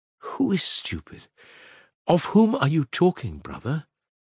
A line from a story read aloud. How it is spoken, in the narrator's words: Alyosha asked anxiously again